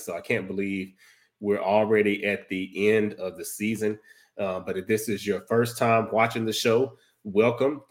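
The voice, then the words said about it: Hoarse, froggy sick voice. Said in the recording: “excuse my voice tonight because I'm trying to come down with something ... may sound like a frog a little bit”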